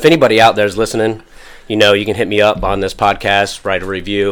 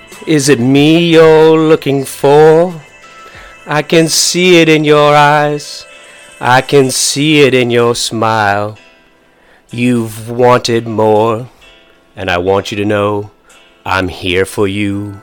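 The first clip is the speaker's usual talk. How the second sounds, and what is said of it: Imitates another person's singing voice. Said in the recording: “my best Lionel Richie impersonation.”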